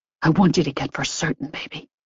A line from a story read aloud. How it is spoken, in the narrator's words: he whispered fiercely